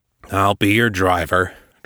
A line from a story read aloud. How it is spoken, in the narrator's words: Travers growled